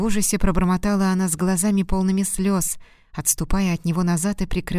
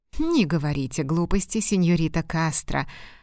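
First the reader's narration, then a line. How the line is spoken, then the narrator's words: Laughing loudly. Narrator (Russian): захохотал он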